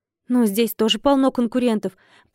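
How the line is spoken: Confused babbling. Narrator (Russian): пролепетала я, понимая, что совсем запуталась в происходящем

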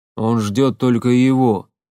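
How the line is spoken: Deep bass voice. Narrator (Russian): пробасил Громила

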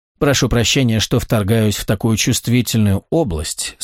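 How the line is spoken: Plain. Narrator (Russian): сказала она наконец

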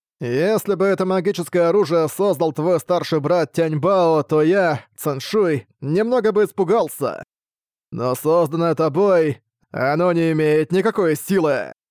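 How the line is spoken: Cold tone. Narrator (Russian): Сказав так холодным тоном, Циншуй

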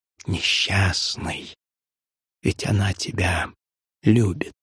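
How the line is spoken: Gloating whisper in ear. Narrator (Russian): какой-то злорадный голос шепнул мне на ухо

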